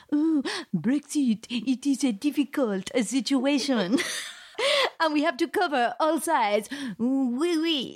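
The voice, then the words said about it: Bad put-on French accent. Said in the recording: “you can just do a really bad French accent”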